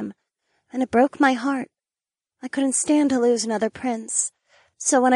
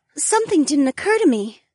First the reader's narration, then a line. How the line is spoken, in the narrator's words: Ariana gasped